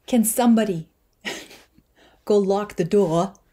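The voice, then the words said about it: Poor Christopher Walken impression. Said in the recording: “I do a Christopher Walken impression, it's terrible”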